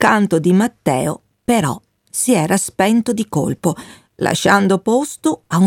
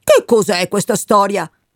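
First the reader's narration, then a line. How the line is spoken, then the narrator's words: Shouted. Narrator (Italian): gridò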